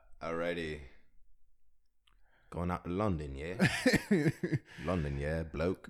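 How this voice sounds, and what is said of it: Put-on British accent. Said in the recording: “British accent. British accent. British accent ... British, bruv.”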